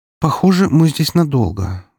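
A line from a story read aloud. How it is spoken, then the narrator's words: Sleepy sigh. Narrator (Russian): вздохнула Валькирия, вынырнув из дремоты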